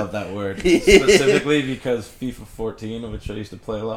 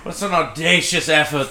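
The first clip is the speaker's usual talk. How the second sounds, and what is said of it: Put-on British commentator accent. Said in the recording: “in a British accent”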